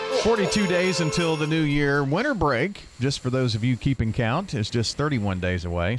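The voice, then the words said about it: Smooth radio announcer voice. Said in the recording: “Sounds like Kasem Kasem ... It's only when I talk in my radio voice, though.”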